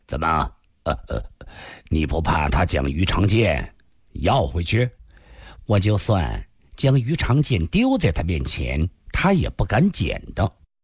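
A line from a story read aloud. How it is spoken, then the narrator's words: Smiling. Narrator (Chinese): 李寻欢微笑地说道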